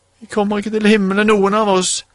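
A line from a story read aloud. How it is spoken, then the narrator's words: Tearful. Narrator (Norwegian): sa Petter, og så gråt de begge to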